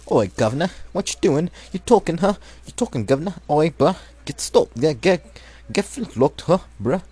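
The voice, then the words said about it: Mock British-Australian-Irish accent. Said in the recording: “It's a kind of like semi-British or Australian / Irish accent. I don't know, I'm thinking about it as a good British accent.”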